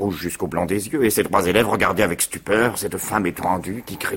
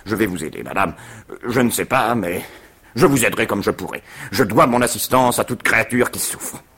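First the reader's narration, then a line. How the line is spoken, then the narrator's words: Resolute voice. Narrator (French): il dit d'une voix résolue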